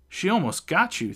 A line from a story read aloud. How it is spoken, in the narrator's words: yelling from among the crowd